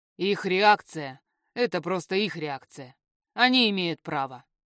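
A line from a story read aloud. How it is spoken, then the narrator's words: Snorted. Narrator (Russian): хмыкнул Эхран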